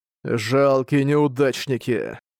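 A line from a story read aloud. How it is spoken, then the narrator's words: Weary mutter. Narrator (Russian): Устало пробормотал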